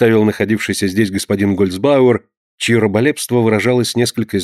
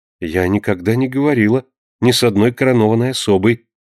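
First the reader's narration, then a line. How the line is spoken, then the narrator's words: Calm reply. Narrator (Russian): спокойно ответила Консуэла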